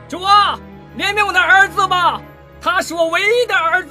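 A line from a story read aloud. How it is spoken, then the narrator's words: Loud shout. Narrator (Chinese): 人群里有一个人大声地对耶稣喊道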